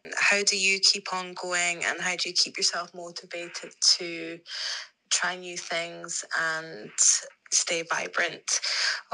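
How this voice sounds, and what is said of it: Speaks with a distinctive accent. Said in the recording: “accent is everything”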